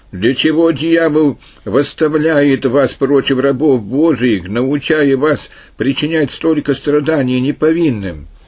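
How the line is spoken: Loud appeal. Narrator (Russian): Апраниан громко воззвал

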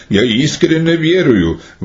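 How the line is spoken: Exclaiming. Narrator (Russian): воскликнул Клавдий

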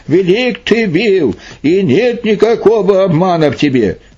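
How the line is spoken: Loud exclamation. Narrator (Russian): царь воскликнул громким голосом

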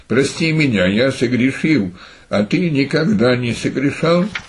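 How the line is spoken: Calm reply. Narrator (Russian): Пахомий спокойно отвечал

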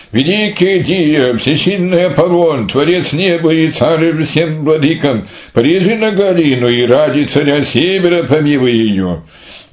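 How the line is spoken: Priests exclaiming. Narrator (Russian): Жрецы же на это воскликнули

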